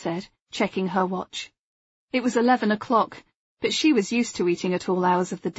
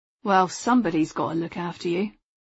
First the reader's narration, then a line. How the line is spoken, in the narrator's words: he said dryly